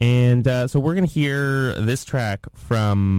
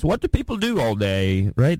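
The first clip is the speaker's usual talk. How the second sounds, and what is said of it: Put-on British accent. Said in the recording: “That's a good British accent.”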